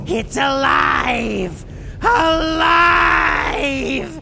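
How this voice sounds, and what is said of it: Yelling excitedly. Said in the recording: “why are you yelling?”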